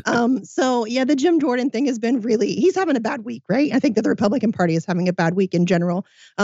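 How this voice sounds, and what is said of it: Sick voice, cutting in and out. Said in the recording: “apologize for my voice. I have been sick all week, and so my voice is very much in and out, and I, I sound a little bit like Mickey Mouse.”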